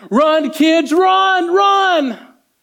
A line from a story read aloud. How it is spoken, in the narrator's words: She just screamed to the top of her voice